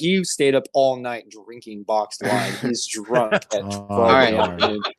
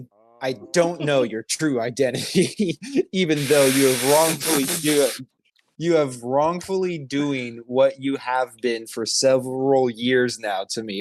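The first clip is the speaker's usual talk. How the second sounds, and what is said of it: Imitation of another man's voice. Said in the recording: “do his voice”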